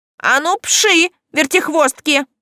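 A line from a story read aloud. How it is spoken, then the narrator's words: Hoarse barking aunt. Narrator (Russian): хрипло рявкнула тетушка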